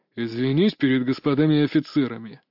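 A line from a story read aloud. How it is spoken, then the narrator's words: Father speaking through teeth. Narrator (Russian): снова процедил отец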